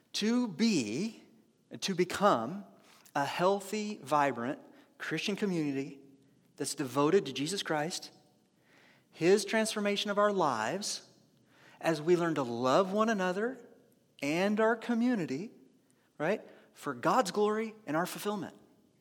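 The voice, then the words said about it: Deliberately slow speech. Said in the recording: “I can actually say it fast too. I said it slowly”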